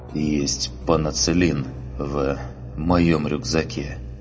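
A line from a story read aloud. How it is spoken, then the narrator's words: Pained, through gritted teeth. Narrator (Russian): преодолевая боль, сквозь зубы проговорил кварианец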